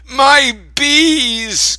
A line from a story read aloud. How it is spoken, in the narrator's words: Grandpa cried as he ran from the car